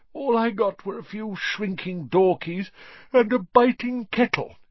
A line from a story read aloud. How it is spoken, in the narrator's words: yawned Mr